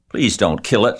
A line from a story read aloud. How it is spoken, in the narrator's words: she sobbed